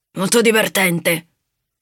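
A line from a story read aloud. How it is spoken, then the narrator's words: Growled. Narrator (Italian): ringhiò Covo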